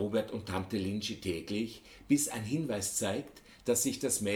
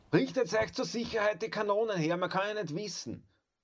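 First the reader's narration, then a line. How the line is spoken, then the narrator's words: Called out. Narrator (German): rief der Griesfranz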